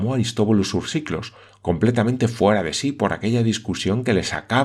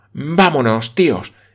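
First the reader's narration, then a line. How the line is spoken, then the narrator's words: Irritated young woman exclaiming. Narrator (Spanish): exclamó la señorita Campbell, visiblemente irritada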